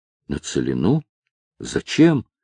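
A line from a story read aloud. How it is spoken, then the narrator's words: Halting, quiet, disbelieving question. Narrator (Russian): еще не веря услышанному, прерывисто тихо переспросила она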